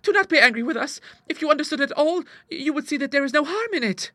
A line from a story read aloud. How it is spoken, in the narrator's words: cried Clara